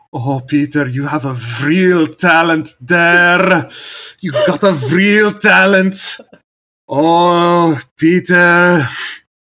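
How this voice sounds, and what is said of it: Put-on Frisian American accent, somewhat Scottish. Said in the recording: “I could do good Frisian American accent because of my grandparents ... Kind of sounds Scottish now that I'm thinking about it.”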